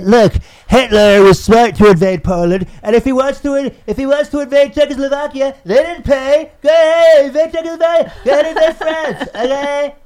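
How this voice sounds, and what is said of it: Fast, congested-sounding impression voice. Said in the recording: “Marlon Brando with a head cold ... It's Marlon Brando on speed with a cold ... that impression ... of Donald Trump”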